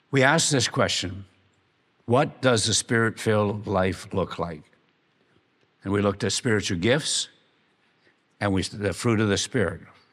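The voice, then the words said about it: Strained, nearly lost voice. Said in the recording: “my voice is almost gone”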